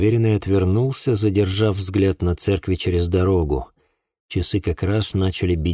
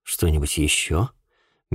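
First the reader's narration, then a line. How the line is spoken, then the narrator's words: Soft inquiry. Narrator (Russian): мягко поинтересовался я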